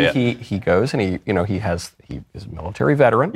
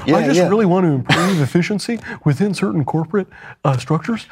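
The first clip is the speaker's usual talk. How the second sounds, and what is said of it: Imitates another person's voice. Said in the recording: “This is a very good impression.”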